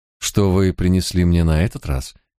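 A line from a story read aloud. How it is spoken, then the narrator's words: Soft inquiry. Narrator (Russian): мягко осведомилась она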